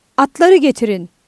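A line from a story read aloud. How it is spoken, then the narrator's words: Shouting. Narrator (Turkish): diye bağırdı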